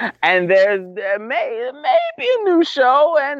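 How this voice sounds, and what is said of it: Usual voice. Nothing is said of it.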